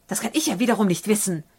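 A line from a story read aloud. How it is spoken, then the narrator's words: Snapping. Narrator (German): schnappt der Herr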